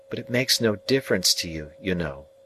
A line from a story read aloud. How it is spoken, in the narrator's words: said Biddy calmly